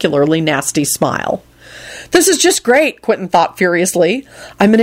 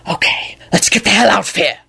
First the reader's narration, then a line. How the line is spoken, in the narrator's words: Quentin hissed to Lucretia